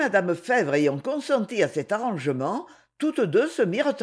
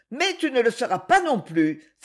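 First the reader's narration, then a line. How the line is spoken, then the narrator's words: Angry exclamation. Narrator (French): s'écria-t-elle, et une flamme de colère s'alluma soudain dans ses yeux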